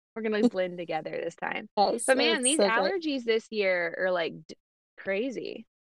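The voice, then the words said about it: Congested, much lower voice. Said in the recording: “My voice is like 3 octaves lower than usual because I'm like stuffed up like a little kid”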